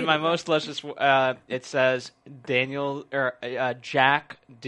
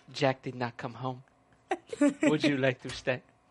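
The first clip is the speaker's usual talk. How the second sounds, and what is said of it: Imitates a TV character's voice. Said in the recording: “Do the voice, though. ... Who, Margot?”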